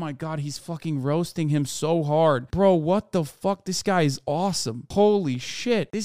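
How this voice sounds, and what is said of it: Usual voice. Nothing is said of it.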